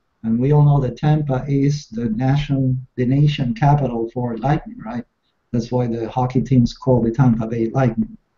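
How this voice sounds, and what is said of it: Spanish accent. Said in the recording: “For those of you trying to locate the accent, it's from Spanish”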